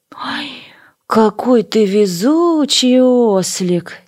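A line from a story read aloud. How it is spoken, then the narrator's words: Buffalo's heavy sigh. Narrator (Russian): тяжело вздохнул буйвол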